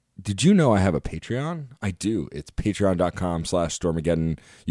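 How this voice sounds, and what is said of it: Congested voice from a cold. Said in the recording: “my voice is crap. I'm getting over a cold, and I'm all congested”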